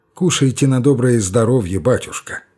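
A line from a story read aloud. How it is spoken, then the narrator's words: Gentle, affectionate. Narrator (Russian): ласково промолвил Порфирий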